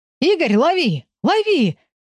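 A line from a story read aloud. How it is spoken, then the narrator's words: Shouting. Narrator (Russian): кричал Георгий сисадмину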